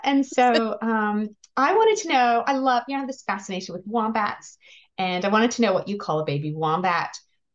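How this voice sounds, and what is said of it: Non-Australian accent. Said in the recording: “it might have noticed from my accent that I wasn't born and raised in Australia”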